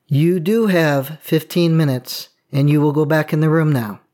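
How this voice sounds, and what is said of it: Stern authoritative parent voice. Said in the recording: “in my dad voice”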